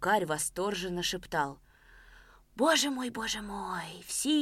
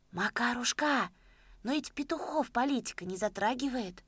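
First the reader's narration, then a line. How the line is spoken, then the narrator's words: Timid old man asking. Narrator (Russian): робко вопросил дед Щукарь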